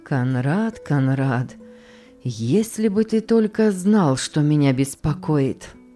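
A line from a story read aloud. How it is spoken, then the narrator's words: Deep sigh. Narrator (Russian): Лакринский глубоко вздохнул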